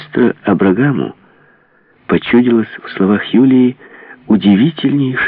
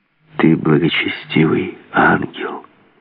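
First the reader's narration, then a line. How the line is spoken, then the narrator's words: Whispered in ear. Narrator (Russian): прошептал маэстро Юлии на ухо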